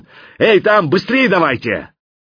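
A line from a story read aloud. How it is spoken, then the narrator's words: Shouted. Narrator (Russian): Я крикнул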